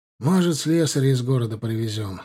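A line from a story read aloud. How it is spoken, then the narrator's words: Sigh. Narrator (Russian): вздохнул Тарек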